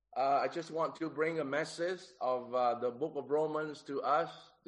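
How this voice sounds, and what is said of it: Nasal, congested sick voice. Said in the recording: “if you feel that my accent have a bit of nasal because of the sore throat ... the coughing is still bad”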